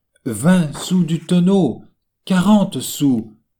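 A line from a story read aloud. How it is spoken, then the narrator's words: Pleading turning to insults. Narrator (French): dans la même seconde passait des supplications aux injures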